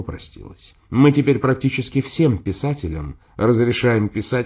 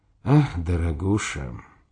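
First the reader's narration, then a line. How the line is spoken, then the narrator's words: Tired, smiling. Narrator (Russian): устало улыбнулся Дзержин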